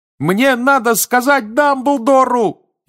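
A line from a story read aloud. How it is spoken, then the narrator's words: Louder shout. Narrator (Russian): еще громче закричал Гарри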